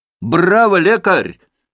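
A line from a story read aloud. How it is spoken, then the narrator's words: Shout. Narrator (Russian): крикнул Митя со своего места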